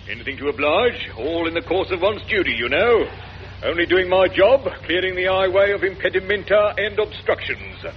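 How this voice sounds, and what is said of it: Strange voice like a policeman. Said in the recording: “you do speak. Well, you speak very strangely, almost like a policeman, in fact. ... your impression was very realistic”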